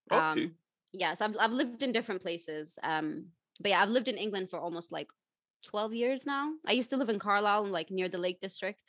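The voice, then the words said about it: American-sounding international accent. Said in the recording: “you're probably from, you know, California ... I sound like a valley girl? ... you don't sound like you're from this country ... that's why I have the accent that I do, because I went into an international school ... your accent's still like that”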